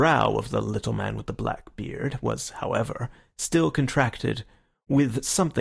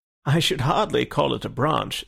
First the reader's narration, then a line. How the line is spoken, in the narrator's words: said Syme, laughing